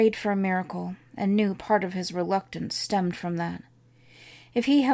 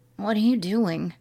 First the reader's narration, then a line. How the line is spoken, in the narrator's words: he hoarsely asked